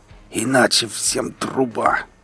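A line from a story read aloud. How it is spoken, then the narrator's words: Hoarse wheeze. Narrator (Russian): прохрипел наемник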